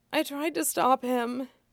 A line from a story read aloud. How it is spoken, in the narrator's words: Tarly said faintly, without opening his eyes